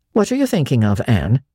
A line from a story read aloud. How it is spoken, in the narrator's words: she asked sharply